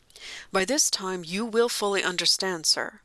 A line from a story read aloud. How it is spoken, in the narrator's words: he said